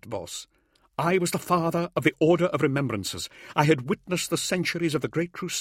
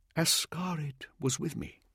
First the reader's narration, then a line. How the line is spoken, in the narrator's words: he said quietly